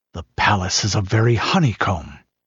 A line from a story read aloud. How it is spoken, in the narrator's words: he muttered